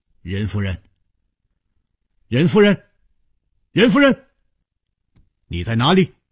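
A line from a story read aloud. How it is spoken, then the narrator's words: Calling out. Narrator (Chinese): 他一面呼唤着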